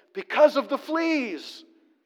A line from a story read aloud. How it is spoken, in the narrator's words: Betsy could not keep the triumph from her voice as she exclaimed